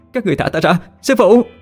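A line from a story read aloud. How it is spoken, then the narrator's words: Screaming. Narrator (Vietnamese): tiếng gào thét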